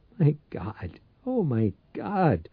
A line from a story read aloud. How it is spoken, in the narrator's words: In a terrified voice, he whined